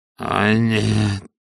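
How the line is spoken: Hoarse groan. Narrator (Russian): хрипло простонал Пакет

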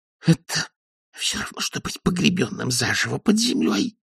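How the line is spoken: Hissing elf. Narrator (Russian): прошипел эльф

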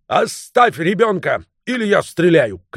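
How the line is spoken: Shouting. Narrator (Russian): крикнул он

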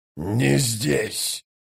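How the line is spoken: Growling. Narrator (Russian): прорычал Троц

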